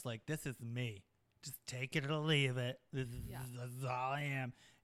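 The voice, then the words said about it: Odd put-on voice. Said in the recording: “That's a weird voice”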